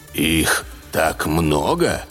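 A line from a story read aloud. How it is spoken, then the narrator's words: Dejected question. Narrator (Russian): упавшим голосом спросил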